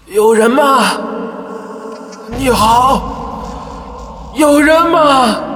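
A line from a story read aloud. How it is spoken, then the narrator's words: Strained, painful shout. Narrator (Chinese): 这声大叫几乎撕裂了我的声带，胸部一阵剧痛，又喊了起来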